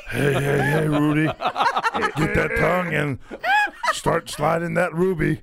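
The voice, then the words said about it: Cartoon character voice. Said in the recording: “that voice you do. Like the Fat Albert voice that you do.”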